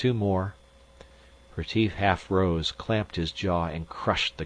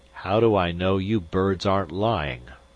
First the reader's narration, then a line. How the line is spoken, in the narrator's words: Zorn snarled